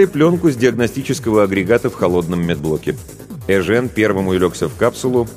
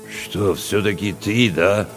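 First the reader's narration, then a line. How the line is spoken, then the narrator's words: Confused mutter. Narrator (Russian): Растерянно пробурчал Чевчаридзе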